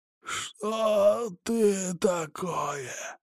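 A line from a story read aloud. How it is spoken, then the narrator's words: Hoarse rasp. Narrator (Russian): прохрипел он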